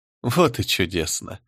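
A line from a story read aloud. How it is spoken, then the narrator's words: Laughing. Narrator (Russian): рассмеялась Берегиня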